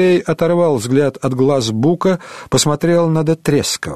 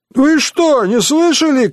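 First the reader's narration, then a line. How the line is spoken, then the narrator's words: Shouting. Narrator (Russian): крикнул Пашко Рымбаба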